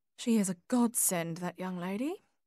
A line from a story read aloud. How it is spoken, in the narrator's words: murmured Edna